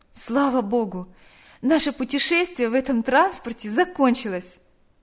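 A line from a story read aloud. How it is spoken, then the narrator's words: Relieved sigh. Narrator (Russian): вздохнула Наташа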